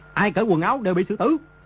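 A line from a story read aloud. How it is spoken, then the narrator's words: Barked command. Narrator (Vietnamese): Đồ Nhĩ Bố Thanh quát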